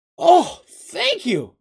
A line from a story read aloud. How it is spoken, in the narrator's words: the little gully exclaimed